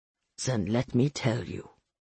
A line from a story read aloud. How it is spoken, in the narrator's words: he said, pulling me closer so he could murmur in my ear